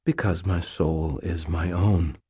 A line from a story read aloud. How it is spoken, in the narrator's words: I said quietly